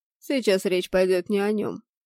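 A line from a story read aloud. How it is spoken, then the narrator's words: Stern. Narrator (Russian): строго заявил Нумебус, перестав в момент смеяться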